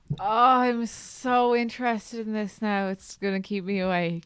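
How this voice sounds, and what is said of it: Sarcastic, mock-interested tone. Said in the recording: “You sound like you're being sarcastic.”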